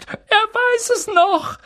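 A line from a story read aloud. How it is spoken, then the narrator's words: Call. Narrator (German): rief Daedalus Dickel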